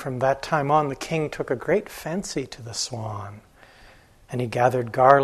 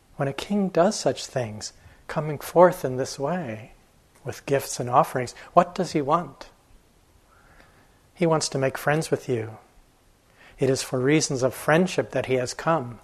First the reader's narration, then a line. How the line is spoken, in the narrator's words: said the swans